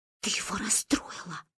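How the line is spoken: Whisper. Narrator (Russian): шепнула я

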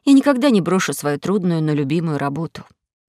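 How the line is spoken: Sad. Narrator (Russian): сказала печально Кора

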